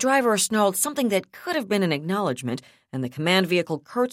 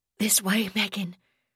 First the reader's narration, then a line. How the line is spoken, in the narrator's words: Jamie curbishly said hoarsely